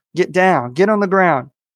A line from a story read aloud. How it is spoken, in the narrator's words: he shouts out